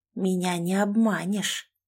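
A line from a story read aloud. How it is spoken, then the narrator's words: Chilling whisper. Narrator (Russian): прошептала она так, что у меня волосы на загривке дыбом встали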